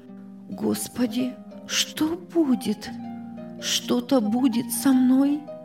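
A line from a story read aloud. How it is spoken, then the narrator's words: Terrified whisper. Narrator (Russian): шептала в ужасе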